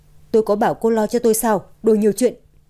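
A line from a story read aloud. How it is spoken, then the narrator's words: Cold snapping boy. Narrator (Vietnamese): cậu bé chỉ lạnh lùng gắt gỏng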